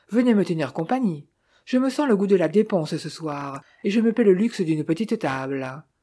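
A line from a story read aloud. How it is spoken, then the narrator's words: Exclaiming. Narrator (French): s'écria-t-elle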